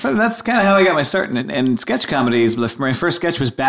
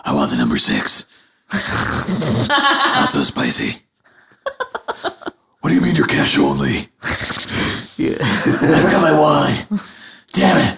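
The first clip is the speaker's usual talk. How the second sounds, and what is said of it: Christian Bale's gravelly Batman voice. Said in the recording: “Batman at a drive-thru, but in a Christian Bale voice. ... Christian Bale Batman at a drive-thru”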